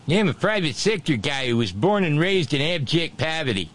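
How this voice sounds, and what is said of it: Put-on New England accent. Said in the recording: “That's the wrong accent, isn't it? ... That's a little too New England, too.”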